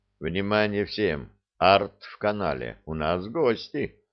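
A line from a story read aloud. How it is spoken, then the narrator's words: Quiet, into microphone. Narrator (Russian): я тихо сказал в микрофон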